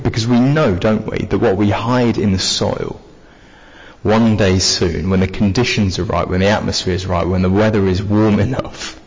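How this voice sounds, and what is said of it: Mixed southern English accent. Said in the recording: “I'm from down south... I'm from Cambridge... I've got bits of Essex, bits of North London, bits of Rotherham and bits of Lincolnshire by now. My accent is, to be honest with you, it's a little bit of a mess.”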